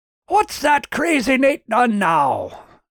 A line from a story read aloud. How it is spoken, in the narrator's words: boomed a big voice